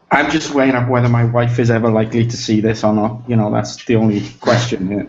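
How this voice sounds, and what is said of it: South Welsh accent. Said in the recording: “Swansea in the UK. So it's a coastal city in South Wales in the UK. ... Your accent is much nicer than Phil's.”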